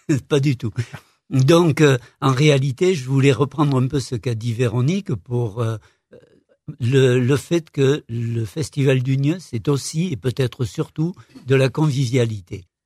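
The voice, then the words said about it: Non-local accent in French. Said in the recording (French): “vous avez un joli accent ... pas très stéphanois ... Vous l'avez pas perdu”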